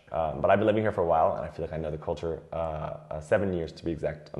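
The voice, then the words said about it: Noticeable non-French foreign accent. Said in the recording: “as you can probably tell from my accent, that I'm not French”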